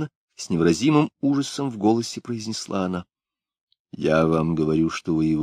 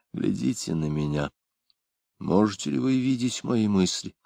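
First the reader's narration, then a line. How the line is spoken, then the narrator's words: Barely audible whisper. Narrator (Russian): Он едва слышно шепнул ей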